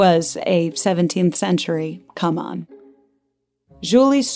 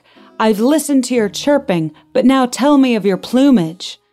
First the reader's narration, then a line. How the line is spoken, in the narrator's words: Delbert shouted back